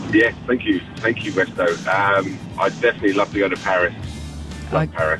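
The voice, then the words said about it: Noticeable accent. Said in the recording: “I'm detecting an accent”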